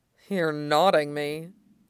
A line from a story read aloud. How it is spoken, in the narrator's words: he mumbled